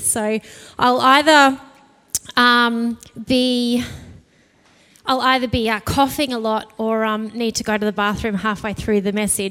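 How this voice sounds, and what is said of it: Dry, slightly croaky voice. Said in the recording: “my voice has just been dry this morning and a little bit croaky”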